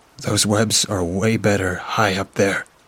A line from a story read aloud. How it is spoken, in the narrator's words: I said with a breathless chuckle, trying to shake off the anxiety from the Brazilian wandering spider